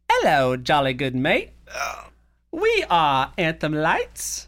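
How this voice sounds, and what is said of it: Poor put-on British accent. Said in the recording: “that was a very bad British accent ... Why did you also become female?”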